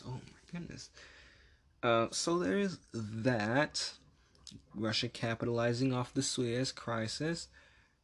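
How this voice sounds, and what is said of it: Hoarse voice. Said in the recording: “my voice is so hoarse”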